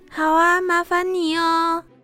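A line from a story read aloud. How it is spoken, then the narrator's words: Loud reply. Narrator (Chinese): 宝儿大声的回答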